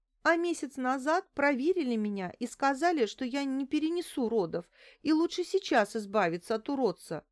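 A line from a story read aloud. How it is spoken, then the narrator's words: Sobbing, gasping breath. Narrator (Russian): схлипнула Лариса, судорожно вздохнув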